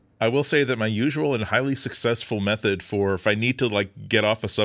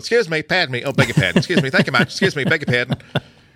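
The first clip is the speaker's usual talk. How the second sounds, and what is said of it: Put-on Australian accent. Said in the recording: “I will like just basically use an Australian accent”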